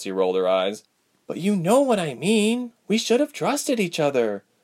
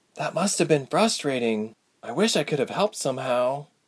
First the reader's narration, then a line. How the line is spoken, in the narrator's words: Ilse said with a moan